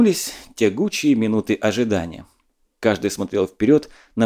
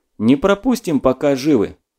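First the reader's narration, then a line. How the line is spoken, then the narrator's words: Forced cheerfulness hiding anxiety. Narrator (Russian): нарочито бодро отозвался Силиков, и по его голосу можно было догадаться, какие черные кошки скребутся у него в душе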